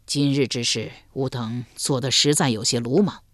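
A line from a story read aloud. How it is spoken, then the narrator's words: Soft sigh. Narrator (Chinese): 张勇轻叹一声说道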